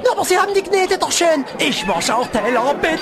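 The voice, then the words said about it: Saxon German accent. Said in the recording (German): “Naja, aber doch nicht auf Sächsisch. ... Der Sachse will einen Spot sprechen.”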